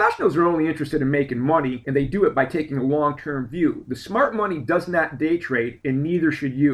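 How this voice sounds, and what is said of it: Usual voice. Nothing is said of it.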